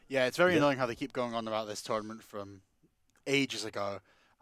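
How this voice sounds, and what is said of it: Scottish accent. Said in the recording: “Scotsman, I reckon he bungs on the accent”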